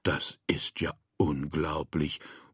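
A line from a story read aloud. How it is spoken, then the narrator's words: Murmured. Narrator (German): murmelte Herr Müller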